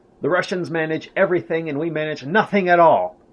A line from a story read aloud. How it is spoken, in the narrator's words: Hitler irritably exclaimed